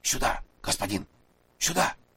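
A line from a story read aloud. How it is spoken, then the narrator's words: Whispered call. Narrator (Russian): шепотом позвал Масса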